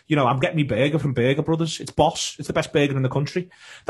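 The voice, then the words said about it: Liverpool accent. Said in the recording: “Everyone hears a Liverpool accent”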